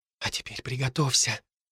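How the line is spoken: Girl's whisper. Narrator (Russian): послышался девичий шепот

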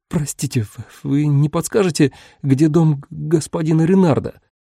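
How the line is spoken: Timid stammering question. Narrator (Russian): Заикаясь от робости, спросил он

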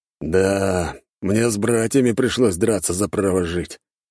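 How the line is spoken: Snorting. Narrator (Russian): фыркнул бородатый

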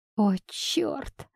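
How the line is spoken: Sighed. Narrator (Russian): вздохнула она

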